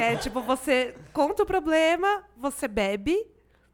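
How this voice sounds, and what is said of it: Usual voice. Nothing is said of it.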